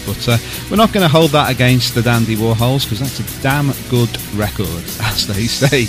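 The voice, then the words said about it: Local radio DJ style delivery. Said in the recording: “I sounded a bit like a local radio DJ there, wasn't I?”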